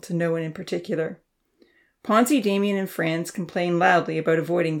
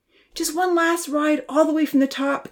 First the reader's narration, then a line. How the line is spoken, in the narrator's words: Kenzie begged